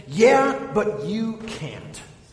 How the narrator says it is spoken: shout back to him

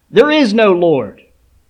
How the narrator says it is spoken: the atheist who lived next door yelled back

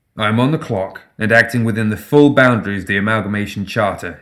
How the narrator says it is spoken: he replied, his voice firm

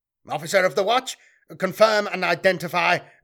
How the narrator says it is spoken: barked Miguel, not trusting the word of one of the machine men slaves

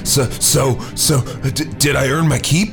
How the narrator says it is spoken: Earl panted

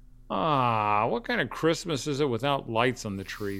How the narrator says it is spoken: Sam whined

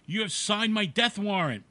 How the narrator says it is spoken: She cried

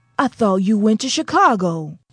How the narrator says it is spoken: cried Bles

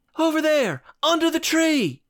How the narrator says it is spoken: She shouted

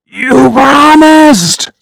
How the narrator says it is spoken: She screamed

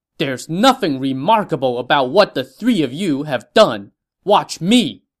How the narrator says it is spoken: someone from the green side rode out and shouted

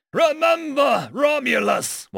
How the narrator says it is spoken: yelled

